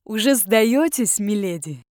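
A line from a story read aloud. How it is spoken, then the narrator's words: Deep bass, not breathless. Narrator (Russian): пробасил он, совершенно не запыхавшись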